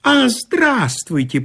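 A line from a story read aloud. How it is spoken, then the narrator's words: Squeaking. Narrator (Russian): пропищал инженю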